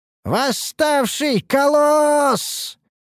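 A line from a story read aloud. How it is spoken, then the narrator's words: Soldier's hysterical shout. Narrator (Russian): истерично прокричал один из солдат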